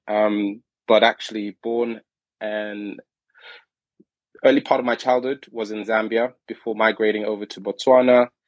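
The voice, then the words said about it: London-sounding English accent. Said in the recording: “You might be able to tell from my accent. Probably sounding like I'm from London or somewhere”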